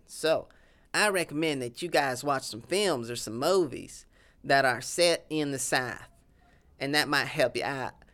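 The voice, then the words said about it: Southern US accent. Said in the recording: “my Southern accent.”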